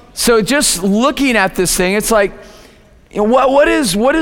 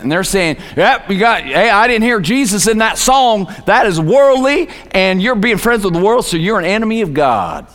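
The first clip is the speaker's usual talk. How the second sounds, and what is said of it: Put-on Southern US accent. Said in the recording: “I don't know why I'm talking with a southern accent right now.”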